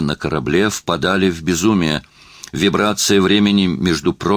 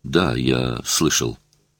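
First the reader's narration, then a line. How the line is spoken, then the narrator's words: Confused mutter. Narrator (Russian): Я пробормотал в замешательстве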